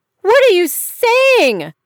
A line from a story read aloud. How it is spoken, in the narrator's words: Georgia screamed back